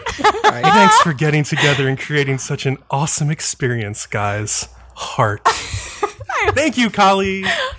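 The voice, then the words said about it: Sultry, seductive reading voice. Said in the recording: “a good, sexy voice”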